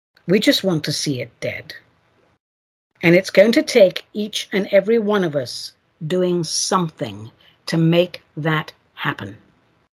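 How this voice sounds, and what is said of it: English accent, sounds angry. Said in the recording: “I'm nowhere near as angry as I sound ... because I have an English accent, people think I'm angry all the time”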